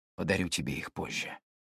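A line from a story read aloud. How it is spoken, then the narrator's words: Whispered in foreign language. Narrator (Russian): шепнул он на талорском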